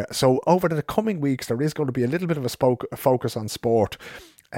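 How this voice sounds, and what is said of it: Dublin Irish accent. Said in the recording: “my Dublin accent”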